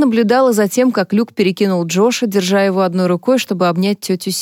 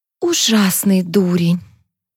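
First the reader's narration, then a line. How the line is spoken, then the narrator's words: Sighing. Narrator (Russian): Софи вздохнула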